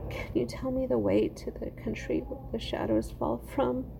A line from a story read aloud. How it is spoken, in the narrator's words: sobbed